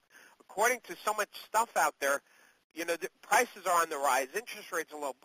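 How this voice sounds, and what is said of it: Hoarse, failing voice. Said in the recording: “I'm sorry, I'm losing my voice, gang.”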